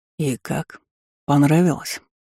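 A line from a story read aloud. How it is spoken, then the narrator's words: Velvety dragon voice. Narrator (Russian): бархатистым голосом спросил дракон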